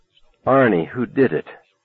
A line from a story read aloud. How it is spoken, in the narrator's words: she asked, her voice breaking with grief for him